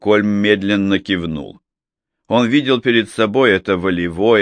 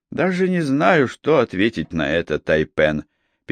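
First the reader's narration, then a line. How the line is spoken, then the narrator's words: Sad. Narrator (Russian): печально произнес Макфей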